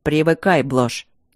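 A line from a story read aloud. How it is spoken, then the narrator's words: Uncompromising tone. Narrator (Russian): непримиримым тоном сказал Итан Бенедикт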